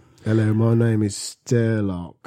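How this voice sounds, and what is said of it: Put-on British accent. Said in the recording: “I'm giving him a British accent.”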